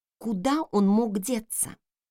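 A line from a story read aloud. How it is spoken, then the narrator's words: Muttered. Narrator (Russian): пробормотала я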